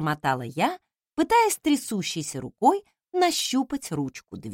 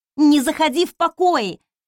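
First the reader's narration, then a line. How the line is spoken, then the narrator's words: Barked. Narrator (Russian): рявкнула я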